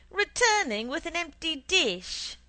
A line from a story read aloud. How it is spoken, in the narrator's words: my mother shouted